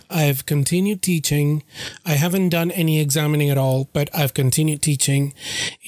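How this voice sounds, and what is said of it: Impaired, struggling voice. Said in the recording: “problem with the allergies ... my voice was not okay to produce a podcast. And still, you can hear for yourself that my voice is not doing really, really well”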